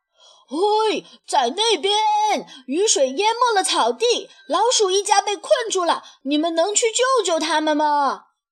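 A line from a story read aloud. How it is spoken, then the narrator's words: Shouting. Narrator (Chinese): 狐狸喊道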